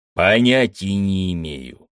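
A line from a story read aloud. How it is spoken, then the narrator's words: Growl through clenched teeth. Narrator (Russian): стиснул зубы, прорычал командор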